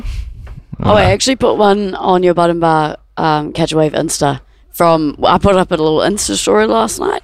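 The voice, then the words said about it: Sounds sick. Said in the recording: “you sound sick.”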